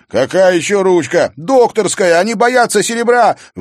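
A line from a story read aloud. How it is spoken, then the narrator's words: Shouted out. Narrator (Russian): выкрикнул Зверев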